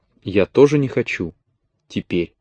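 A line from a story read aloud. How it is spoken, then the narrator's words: Whispered. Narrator (Russian): Она прошептала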